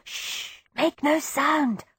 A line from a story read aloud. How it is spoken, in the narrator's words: I whispered, frantically